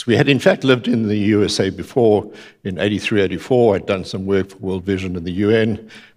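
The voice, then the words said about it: South African accent. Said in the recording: “When Carol and I arrived in the United States in July 1991, I still have the accent after 35 years ... We'd gone back to South Africa”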